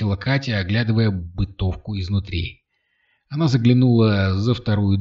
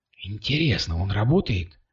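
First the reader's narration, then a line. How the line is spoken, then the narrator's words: Whispering. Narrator (Russian): прошептала она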